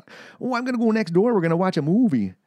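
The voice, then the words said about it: Exaggerated Fargo-style Upper Midwest accent. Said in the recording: “stereotypical Canadian impression ... North Dakota accent, eh? ... The Fargo accent”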